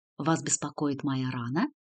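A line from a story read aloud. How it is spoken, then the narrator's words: Quiet question. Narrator (Russian): тихо спросил у нее Артью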